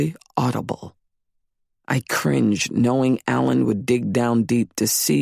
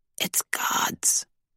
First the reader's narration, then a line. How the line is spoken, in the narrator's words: Emily whispered